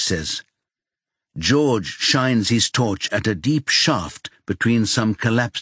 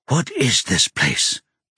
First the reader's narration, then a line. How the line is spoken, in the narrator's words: George whispers